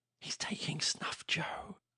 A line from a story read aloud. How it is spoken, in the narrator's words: whispered the same small voice